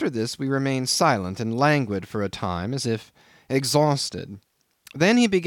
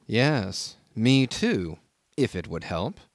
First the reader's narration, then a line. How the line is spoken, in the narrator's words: said also in a low tone